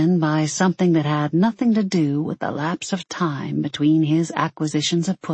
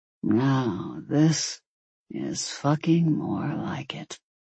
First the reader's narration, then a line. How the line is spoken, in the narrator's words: he muttered